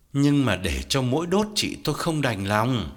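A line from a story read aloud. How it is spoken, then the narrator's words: Sighing. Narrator (Vietnamese): Công thở dài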